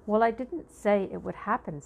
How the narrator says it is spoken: said Mouse

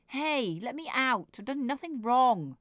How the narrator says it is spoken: Nicholas shouted

